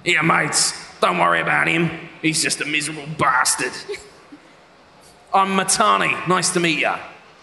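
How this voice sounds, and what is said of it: Put-on Australian accent, character voice. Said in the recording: “He's supposed to be a bit of an Aussie ... doing a lot of voices, ... they all go all over the place”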